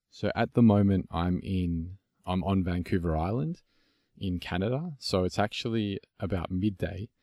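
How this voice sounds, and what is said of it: Australian accent. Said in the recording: “you have a really cool accent... It's an Aussie accent”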